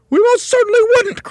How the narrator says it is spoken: cried Mrs

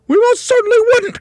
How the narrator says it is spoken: cried Mrs

